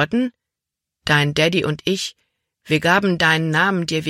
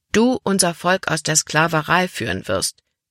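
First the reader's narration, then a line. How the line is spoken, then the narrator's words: Plain. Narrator (German): sagte Mama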